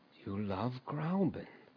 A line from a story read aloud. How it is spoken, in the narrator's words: he went on once or twice dreamily